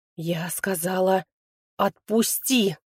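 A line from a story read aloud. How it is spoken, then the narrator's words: Growled. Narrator (Russian): Рыкнула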